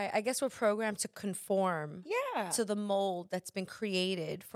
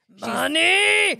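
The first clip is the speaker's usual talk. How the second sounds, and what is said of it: Imitates another person's voice. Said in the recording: “my Sofia Vergara impression from Modern Family.”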